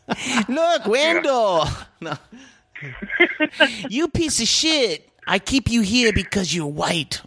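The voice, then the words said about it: Put-on Korean accent. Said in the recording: “could you change that to a Korean accent just for Wendell's landlord?”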